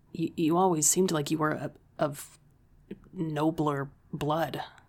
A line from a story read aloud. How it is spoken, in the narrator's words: I stuttered